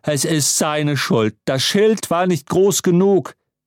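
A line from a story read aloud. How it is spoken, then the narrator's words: Dean thundering. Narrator (German): donnerte der Dekan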